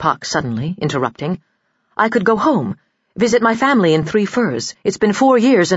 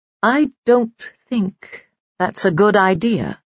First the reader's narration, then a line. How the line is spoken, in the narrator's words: he said slowly